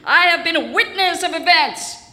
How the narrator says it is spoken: she shouted

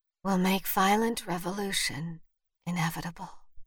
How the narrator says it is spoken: Vivian whispered

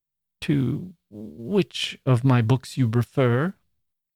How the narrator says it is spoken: she faltered out

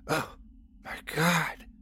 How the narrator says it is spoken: I whispered

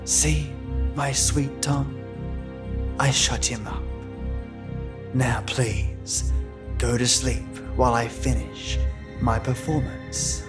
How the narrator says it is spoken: Anna's whispering voice said

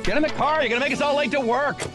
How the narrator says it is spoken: someone yelled

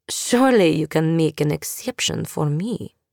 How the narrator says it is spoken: purred

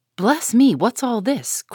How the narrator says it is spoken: cried the old lady

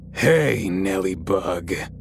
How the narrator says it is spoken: in a deep, gravelly voice

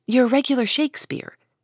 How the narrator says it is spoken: exclaimed Beth

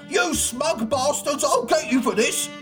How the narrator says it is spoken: shouted

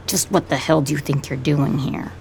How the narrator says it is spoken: He says it flatly

